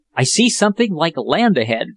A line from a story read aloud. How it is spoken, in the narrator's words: said Jack in a hopeful tone